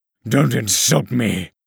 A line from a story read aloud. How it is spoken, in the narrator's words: Saywolf growled